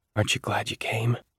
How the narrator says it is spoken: I whispered to Jaya

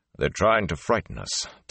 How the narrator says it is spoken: Tom growled

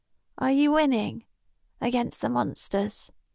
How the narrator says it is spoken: Kara sighs

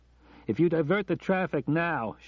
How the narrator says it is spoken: shouted Johnny

